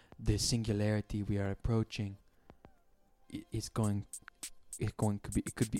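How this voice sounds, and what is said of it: Imitates another person's thick accent. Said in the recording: “he's got a thick accent though ... A weird like Norwegian village ... I'm doing a terrible impression.”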